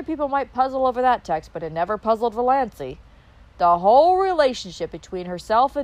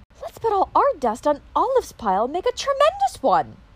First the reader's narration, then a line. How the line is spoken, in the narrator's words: she exclaimed